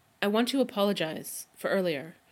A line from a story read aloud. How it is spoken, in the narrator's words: Rodney blurts out finally